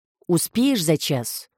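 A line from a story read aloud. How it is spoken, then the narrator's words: Calm question. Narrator (Russian): Уже спокойно поинтересовались с той стороны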